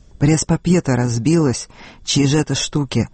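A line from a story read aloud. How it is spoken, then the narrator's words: Hoarse voice from corner. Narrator (Russian): доносится из угла его хриплый голос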